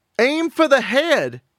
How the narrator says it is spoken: Shelley May yelled

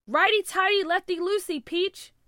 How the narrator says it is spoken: he yelled

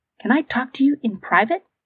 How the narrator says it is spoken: asked quietly

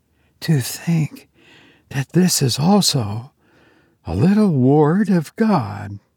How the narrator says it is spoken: Sylvia, bent, half curiously, half tenderly, murmuring

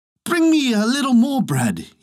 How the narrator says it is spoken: cried

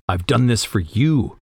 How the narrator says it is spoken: he growls

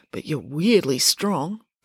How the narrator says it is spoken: muttered Joe

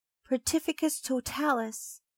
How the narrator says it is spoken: she cried

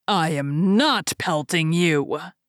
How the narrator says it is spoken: answered the first, growling

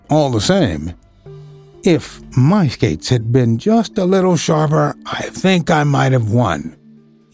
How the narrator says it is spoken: he added a little wistfully

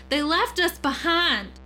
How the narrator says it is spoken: screamed, his voice rising to an inhuman shriek

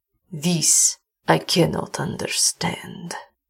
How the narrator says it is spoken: said Carell grimly

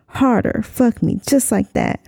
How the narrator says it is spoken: I whined

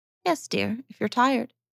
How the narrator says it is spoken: said Lydgate, gently

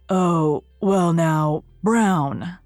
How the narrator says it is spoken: said Matthew feebly

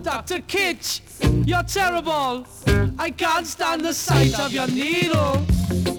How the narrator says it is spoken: starts to shout

